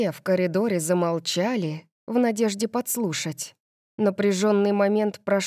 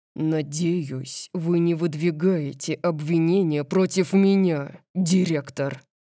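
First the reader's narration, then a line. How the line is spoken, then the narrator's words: Low menacing growl. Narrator (Russian): прорычал Дариус, угрожающе низким голосом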